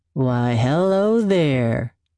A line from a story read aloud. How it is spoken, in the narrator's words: he drawls